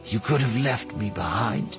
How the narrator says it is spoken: she said quietly

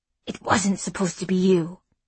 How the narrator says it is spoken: a low voice rasped in her ear

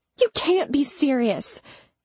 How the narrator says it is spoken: I snapped

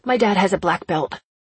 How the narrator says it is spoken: my heart tripped in panic and I blurted

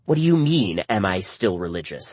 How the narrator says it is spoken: she snapped

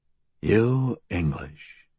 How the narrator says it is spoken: he muttered

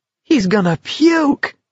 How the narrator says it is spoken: someone cried in an ecstasy of delight

